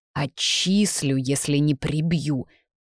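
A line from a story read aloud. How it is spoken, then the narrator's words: Deep guttural growl. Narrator (Russian): утробно прорычал ректор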